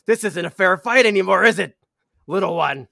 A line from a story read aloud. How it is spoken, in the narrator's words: she's yelling at you, Dim